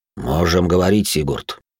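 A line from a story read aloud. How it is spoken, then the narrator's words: Deep bass voice. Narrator (Russian): пробасил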